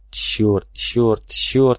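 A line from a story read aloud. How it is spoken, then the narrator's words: Hissed. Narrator (Russian): прошипел Клинч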